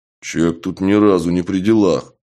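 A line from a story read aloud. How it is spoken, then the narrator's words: Low booming voice. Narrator (Russian): прогудели в темноте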